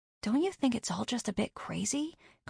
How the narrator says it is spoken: Carney whispered

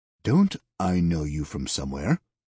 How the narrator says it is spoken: the man asked

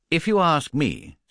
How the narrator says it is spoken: said Mrs

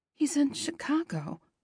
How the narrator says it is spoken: I mutter

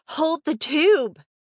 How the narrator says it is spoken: I gasped and shouted

